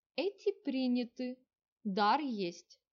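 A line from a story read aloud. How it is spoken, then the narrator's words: Calm statement. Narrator (Russian): спокойно сообщила она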